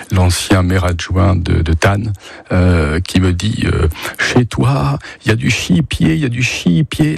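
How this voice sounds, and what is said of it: Strongly pronounced regional French accent. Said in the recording (French): “L'accent très prononcé”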